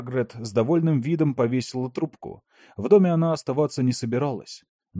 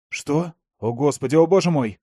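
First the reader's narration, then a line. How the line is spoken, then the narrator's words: Young man nearly shouting. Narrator (Russian): Молодой офицер почти что кричал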